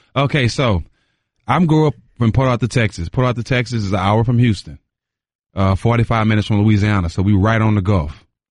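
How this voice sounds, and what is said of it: Southern bayou accent. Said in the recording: “your accent a little bit is a little bit more bayou than it is”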